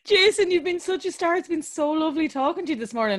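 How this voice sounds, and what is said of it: Irish accent. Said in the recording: “I love the Irish accent”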